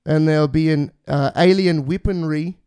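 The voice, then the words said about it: Put-on Kiwi accent. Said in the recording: “I'm trying to do a Kiwi accent there.”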